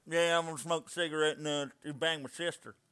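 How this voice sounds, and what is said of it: Exaggerated strong southern country accent. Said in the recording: “Does he have a southern accent? ... it's not a strong southern accent ... Like he's a country boy accent ... Like it's not like talking like this”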